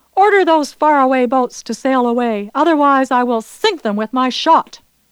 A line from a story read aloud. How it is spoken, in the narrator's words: Loudly he cried out